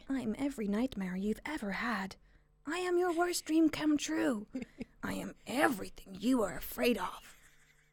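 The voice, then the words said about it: Spooky fun character voice. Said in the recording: “going to do a fun voice ... so spooky”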